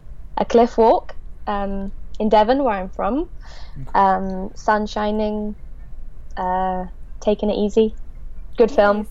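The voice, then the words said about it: Natural Devon English accent. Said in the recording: “I'd love to act in my own accent ... That's a beautiful accent.”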